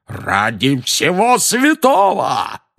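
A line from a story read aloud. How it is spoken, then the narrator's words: Roar. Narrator (Russian): взревел дядя Вернон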